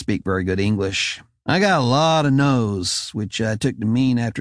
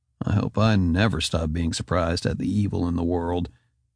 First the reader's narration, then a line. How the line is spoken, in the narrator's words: Jack mumbled